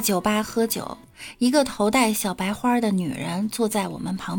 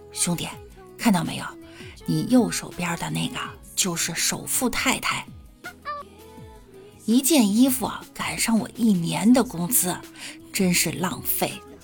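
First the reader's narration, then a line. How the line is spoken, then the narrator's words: Quiet, low voice. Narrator (Chinese): 兄弟啊，小声对李大脚说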